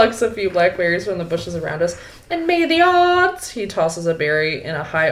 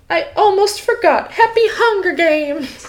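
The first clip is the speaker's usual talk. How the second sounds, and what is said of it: Affected upbeat Capitol accent. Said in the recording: “he falls into a capital accent as he mimics Effie Trinket, the upbeat woman”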